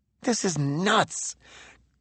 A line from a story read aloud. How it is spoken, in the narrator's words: Coolman grumbled from the rear seat